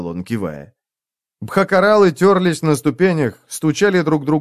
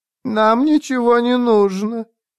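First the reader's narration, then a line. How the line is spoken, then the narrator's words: Thin female voice. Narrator (Russian): произнесла она тонким женским голосом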